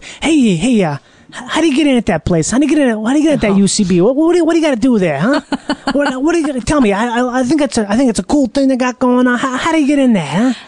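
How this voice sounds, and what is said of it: Exaggerated classic New York accent. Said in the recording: “such a classic New York kind of guy ... me doing that accent is not, it's not as big as his actual accent”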